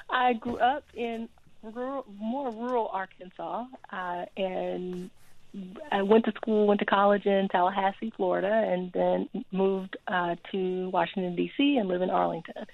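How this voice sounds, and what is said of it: Noticeable regional accent. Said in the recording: “you have a bit of an accent”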